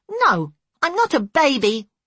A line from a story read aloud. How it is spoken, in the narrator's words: she snapped